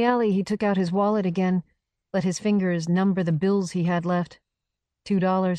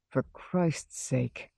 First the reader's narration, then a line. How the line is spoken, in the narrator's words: the man said quietly